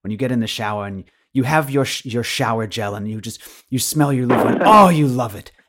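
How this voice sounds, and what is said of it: Imitation of Marissa Peer's accent. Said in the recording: “I'll do my accent”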